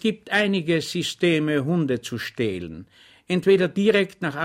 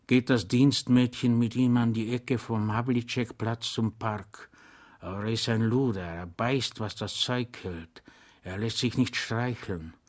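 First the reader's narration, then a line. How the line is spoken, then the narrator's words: Whispering. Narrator (German): sagte der Zivilist flüsternd zu dem Soldaten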